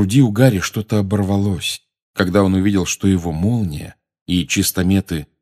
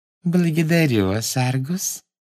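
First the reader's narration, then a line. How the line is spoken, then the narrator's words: Sweet little voice. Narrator (Russian): сладким голоском сказала она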